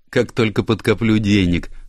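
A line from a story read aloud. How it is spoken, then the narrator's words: Laughing reply. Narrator (Russian): смеясь ответила она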